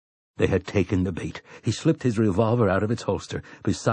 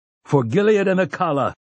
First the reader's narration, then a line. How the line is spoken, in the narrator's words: he roared